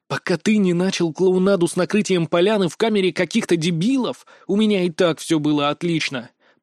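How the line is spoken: Hissed. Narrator (Russian): прошипел

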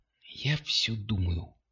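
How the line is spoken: Whisper. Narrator (Russian): шепнула она

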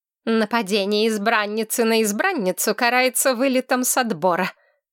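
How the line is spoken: Hissing. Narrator (Russian): зашипела Корнелия

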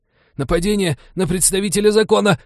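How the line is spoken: Choked hoarse rasp. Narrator (Russian): прохрипел полицейский, как только его кадык отлип от позвоночника

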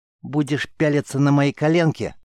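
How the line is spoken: Angry embarrassed through teeth. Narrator (Russian): сердито процедила Цера, хотя уши ее стали пунцовыми

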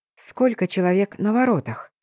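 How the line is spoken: Quiet question. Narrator (Russian): тихо спросила я тетушку Мэ

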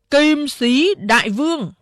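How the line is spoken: Loud ringing announcement. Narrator (Vietnamese): Đại Hổ cao giọng sướng

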